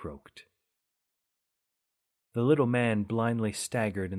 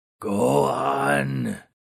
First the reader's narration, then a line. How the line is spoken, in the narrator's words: thunderously croaked the ghoul